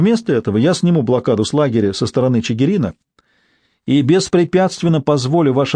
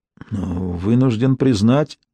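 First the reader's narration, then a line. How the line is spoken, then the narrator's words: Confused mutter. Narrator (Russian): растерянно пробормотал Чернецкий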